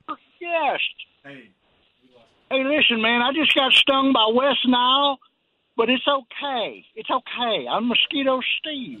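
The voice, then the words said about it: Poorly done comedic character voice. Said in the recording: “That's a terrible impression. You sound more like Mosquito Trey.”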